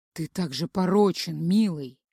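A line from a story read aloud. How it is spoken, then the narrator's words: Overpowering night whisper. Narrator (Russian): шептал, убивающий все остальные звуки, голос в ночи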